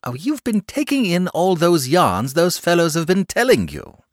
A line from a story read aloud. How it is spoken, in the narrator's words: said the boy impatiently